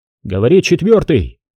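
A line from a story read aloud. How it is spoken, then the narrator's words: Shouting into phone. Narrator (Russian): закричал в трубку Егорьев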